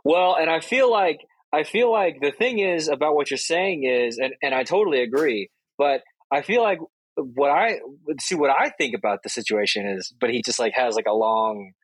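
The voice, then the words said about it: Imitates another person's voice. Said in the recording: “do our best Patrick impersonations ... The only thing that I could really do for a Patrick impersonation”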